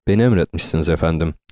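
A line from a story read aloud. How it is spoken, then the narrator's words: Plain. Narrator (Turkish): dedi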